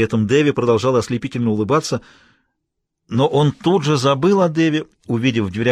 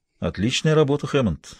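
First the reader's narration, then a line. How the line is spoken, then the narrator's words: Plain. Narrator (Russian): сказал ему Смайлоу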